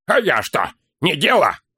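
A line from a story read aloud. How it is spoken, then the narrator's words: Snapping, then softer. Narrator (Russian): Огрызнулся ловчий, но сбавил тон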